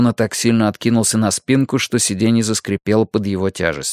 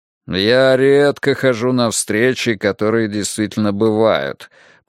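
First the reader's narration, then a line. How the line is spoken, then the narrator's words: Deep bass voice. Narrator (Russian): пробасил Вернер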